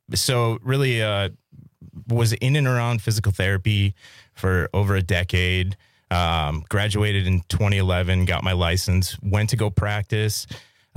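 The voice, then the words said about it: Rich, polished radio voice. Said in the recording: “you have a voice for radio ... You have a fantastic radio voice.”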